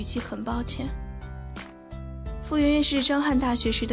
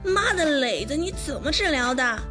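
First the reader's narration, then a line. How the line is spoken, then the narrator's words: Shouting. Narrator (Chinese): 张翰喊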